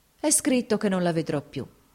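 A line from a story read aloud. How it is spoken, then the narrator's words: Sighing. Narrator (Italian): disse sospirando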